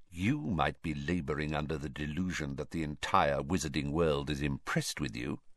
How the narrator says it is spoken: Snape went on, so quietly that no one else could hear him

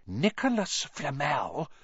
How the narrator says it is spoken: she whispered dramatically

